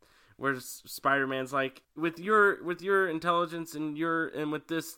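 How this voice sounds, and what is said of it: Usual voice. Nothing is said of it.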